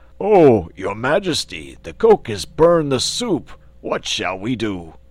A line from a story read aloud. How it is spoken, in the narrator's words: one of the giant servants exclaimed